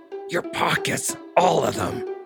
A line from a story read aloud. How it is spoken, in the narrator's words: growled